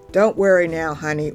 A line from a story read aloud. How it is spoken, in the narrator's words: Orlin said